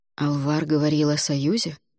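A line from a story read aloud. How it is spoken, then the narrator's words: Quiet clarifying after pause. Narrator (Russian): После паузы негромко уточнил Альгидрас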